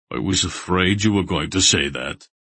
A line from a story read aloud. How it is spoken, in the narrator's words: Barak grumbled